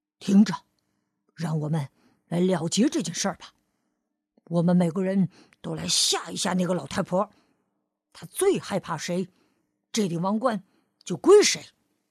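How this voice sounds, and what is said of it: Quiet, hushed voice. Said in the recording (Chinese): “狮子小声说”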